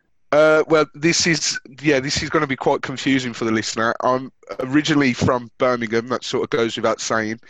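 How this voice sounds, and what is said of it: Non-London British regional accent. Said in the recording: “that's not a London accent.”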